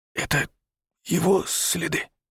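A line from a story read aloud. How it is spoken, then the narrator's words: Whisper. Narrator (Russian): шепнул Павел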